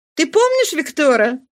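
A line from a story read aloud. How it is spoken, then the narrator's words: Exclaiming. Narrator (Russian): воскликнула Нана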